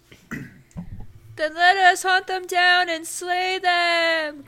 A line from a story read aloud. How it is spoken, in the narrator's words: cried Malagant, one of the last surviving experienced soldiers